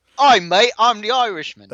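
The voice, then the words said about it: Weird put-on Australian-sounding accent. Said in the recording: “putting on a weird voice ... That's more Australian than anything”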